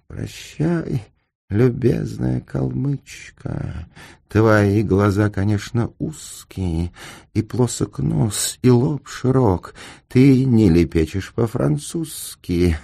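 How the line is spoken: Muttering. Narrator (Russian): Очко бормоча

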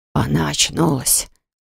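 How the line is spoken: Uncle's whisper. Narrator (Russian): шепот дяди

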